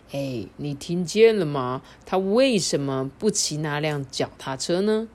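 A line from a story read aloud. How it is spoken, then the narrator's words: Plain. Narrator (Chinese): 哈太太就说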